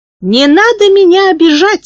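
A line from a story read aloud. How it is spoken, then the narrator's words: High-pitched voice. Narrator (Russian): сказал он высоким голосом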